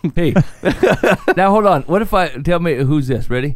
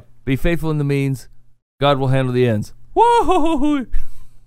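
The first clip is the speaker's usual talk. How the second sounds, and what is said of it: Goofy cartoon voice impression. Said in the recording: “That's Goofy. ... make his signature sound at the end ... doing a Goofy impression.”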